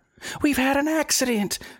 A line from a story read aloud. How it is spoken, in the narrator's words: the children screamed in a frenzy of delight